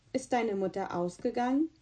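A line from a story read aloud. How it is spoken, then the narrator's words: Faint weary voice. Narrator (German): kam die Antwort mit matter Stimme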